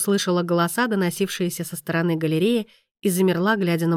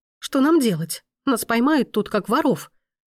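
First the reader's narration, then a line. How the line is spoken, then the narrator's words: Alarmed exclamation. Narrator (Russian): воскликнула Мия, разом отбросив все свои обиды перед реальной опасностью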